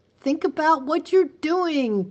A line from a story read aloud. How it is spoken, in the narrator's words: cried Miss Catherine